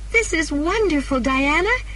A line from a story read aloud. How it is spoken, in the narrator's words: said happily